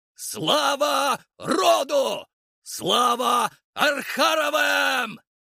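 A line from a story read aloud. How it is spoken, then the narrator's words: Shouting in unison. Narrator (Russian): Кричали они синхронно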